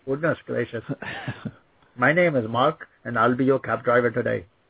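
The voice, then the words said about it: Put-on Indian accent. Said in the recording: “I can do a deeper Indian accent very well”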